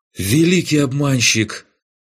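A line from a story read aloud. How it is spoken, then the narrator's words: Breathless exclamation. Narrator (Russian): выдохнул Райнек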